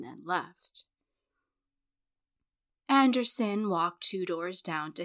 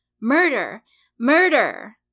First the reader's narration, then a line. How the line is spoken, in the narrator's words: Turner cried, pale as he dangled in the air above them all